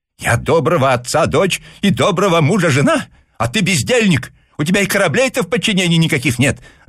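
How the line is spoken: Shouting back. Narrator (Russian): закричала ему в ответ госпожа Лоренс

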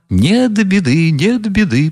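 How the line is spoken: Eager, relieved chiming in. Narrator (Russian): подхватил Фердыщенко, обрадовавшись, что начали смеяться

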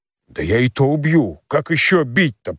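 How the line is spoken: Muttered grumbling. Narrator (Russian): проворчал себе под нос Кондрашка

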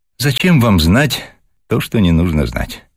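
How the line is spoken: Open sigh. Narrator (Russian): откровенно вздохнула Вера

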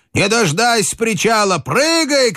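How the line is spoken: Shouting. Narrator (Russian): кричал Хведин

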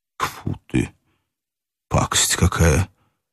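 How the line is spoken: Muttered. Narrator (Russian): пробормотал Иван Ильич

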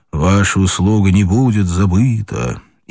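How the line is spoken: Deep bass into ear. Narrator (Russian): пробасил в ухо

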